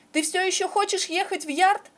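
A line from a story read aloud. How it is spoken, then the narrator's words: Shout. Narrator (Russian): прокричал Джон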